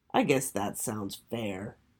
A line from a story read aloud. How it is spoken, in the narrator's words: softly grumbled Finn